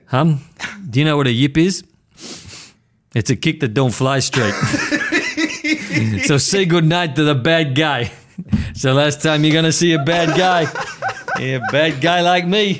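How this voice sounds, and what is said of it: Inconsistent imitated gangster film accent. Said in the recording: “The worst Tony Montana impersonation ... The accent was just coming and going, and then it got really, really strong”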